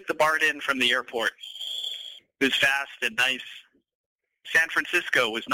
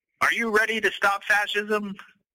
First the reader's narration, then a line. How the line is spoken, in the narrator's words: one of them shouted